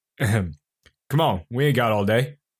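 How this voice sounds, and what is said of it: Convincing put-on accent for character. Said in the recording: “That's way too good of an accent to be the real John.”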